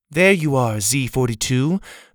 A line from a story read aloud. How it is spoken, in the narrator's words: the girl's mother said, her voice lacking any emotion whatsoever